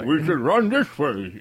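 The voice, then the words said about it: Mumbled, garbled put-on accent. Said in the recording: “I don't know what accent Jeff Bridges is trying to do, but he's got a mouthful of Skittles.”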